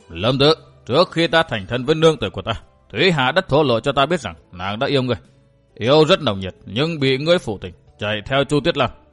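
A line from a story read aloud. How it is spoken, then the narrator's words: Stern, cold. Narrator (Vietnamese): Gã nghiêm giọng lạnh lùng nói tiếp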